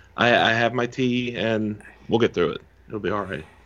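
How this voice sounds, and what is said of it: Hoarse, fading sick voice. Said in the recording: “I'm actually sick today. I've been slowly losing my voice all day”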